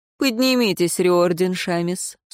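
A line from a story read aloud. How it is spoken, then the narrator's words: Dry. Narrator (Russian): сухо ответила Альвия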